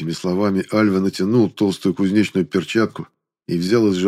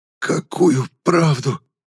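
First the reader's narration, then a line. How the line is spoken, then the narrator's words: Wheezing, breathless. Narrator (Russian): просипел я, учащенно дыша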